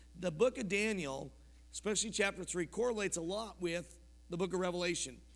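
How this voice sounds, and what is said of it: Scratchy, hoarse voice. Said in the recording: “sorry about my voice ... scratchy throat stuff”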